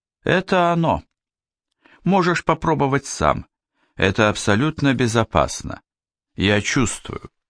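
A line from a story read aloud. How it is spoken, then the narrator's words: Calm. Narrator (Russian): Яна спокойно сказала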